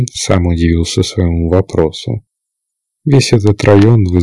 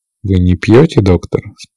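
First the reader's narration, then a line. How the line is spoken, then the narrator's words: Calm question. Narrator (Russian): спокойно спросил он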